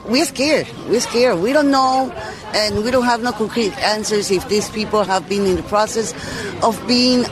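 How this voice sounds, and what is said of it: Foreign accent in English. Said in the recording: “check that accent. ... she's certainly not born here in this country. Right? Given that accent.”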